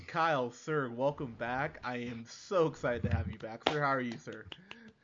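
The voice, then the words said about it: Hoarse, losing voice. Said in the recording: “I am losing my voice. I'm battling the old flu's coming down here.”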